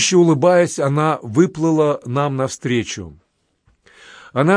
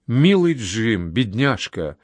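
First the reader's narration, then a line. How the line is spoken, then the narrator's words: Sighing. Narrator (Russian): она вздохнула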